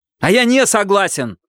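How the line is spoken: Shout. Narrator (Russian): выкрикнул он

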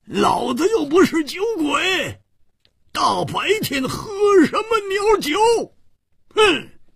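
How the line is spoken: Angry loud roar. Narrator (Chinese): 胡铁花更是满肚子的怨气没处发，跳起来大声地吼叫着

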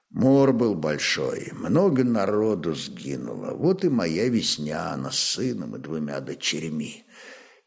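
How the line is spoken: Quiet speech. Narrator (Russian): тихо молвил изведыватель

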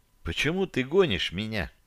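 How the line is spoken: Quiet question. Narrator (Russian): Тихо спросила

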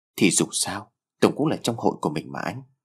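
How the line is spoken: Soft, slightly sad. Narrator (Vietnamese): Lan đôi mắt có vẻ hơi buồn bã, cô nói giọng nhỏ nhẹ

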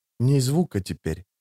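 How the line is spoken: Whispered warning. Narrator (Russian): шепотом предупредил Фримен

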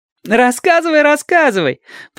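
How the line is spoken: Laughing demand. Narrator (Russian): потребовала Адати, смеясь

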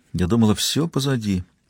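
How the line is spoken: Quiet. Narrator (Russian): тихо произнесла она

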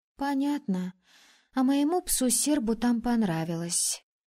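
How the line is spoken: Breathed out. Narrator (Russian): выдохнула соседка

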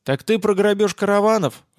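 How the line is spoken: Laughing loudly. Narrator (Russian): расхохотался я

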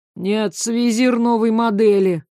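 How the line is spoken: Tired explanation. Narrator (Russian): устало пояснил Дьер

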